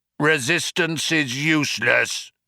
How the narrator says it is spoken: bellowed the guard

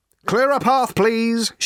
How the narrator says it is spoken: shouted Ford again

